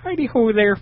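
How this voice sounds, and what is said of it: Irish-accented Muppet character voice. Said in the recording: “You have to do a Muppet voice now. ... Oh, he's an Irish Muppet.”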